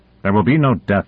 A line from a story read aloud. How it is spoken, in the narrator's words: said Konev sharply